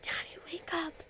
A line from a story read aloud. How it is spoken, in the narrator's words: Lucy whispered